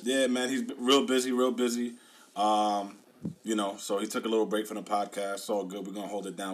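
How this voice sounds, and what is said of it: Slightly hoarse voice. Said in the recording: “My voice is still a little hoarse.”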